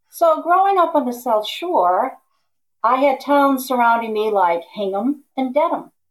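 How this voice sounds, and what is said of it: Massachusetts South Shore accent. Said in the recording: “I'm from Braintree, Massachusetts ... students would make fun of my accent if I said the number 40”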